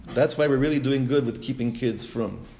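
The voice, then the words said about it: Sarcastic delivery. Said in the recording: “I'm saying that sarcastically.”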